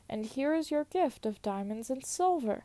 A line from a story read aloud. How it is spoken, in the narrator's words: he cried